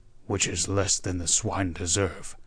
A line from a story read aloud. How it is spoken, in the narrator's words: growled Wolverstone